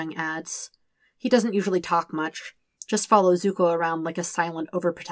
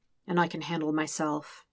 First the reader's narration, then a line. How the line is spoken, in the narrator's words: Zuko says quietly